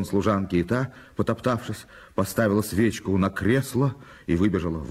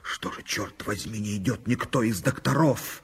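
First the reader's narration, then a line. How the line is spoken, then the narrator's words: Hissed in bewilderment. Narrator (Russian): прошипев на лестнице недоуменно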